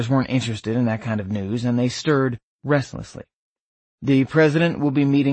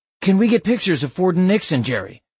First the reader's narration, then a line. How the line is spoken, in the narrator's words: a photographer shouted